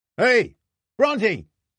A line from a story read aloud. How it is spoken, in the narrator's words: shouted out along the beach